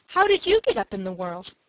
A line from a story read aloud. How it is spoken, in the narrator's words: asked Dick anxiously